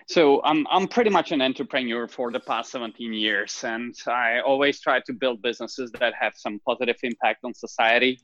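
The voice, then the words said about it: Speaks with a noticeable foreign accent. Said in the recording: “everybody can tell he has an accent”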